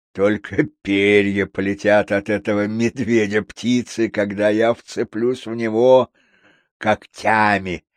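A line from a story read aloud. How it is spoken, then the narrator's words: Boastful. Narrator (Russian): хвастался он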